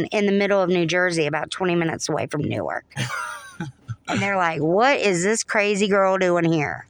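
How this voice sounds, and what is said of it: Southern American accent. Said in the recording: “I've got this southern accent... I'm from North Florida”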